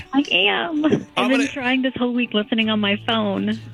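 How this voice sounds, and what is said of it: Whispering. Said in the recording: “you're whispering”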